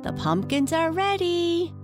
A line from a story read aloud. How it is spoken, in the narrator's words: they cried